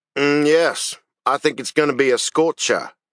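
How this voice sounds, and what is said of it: Cockney accent. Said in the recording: “replied with a Cockney accent.”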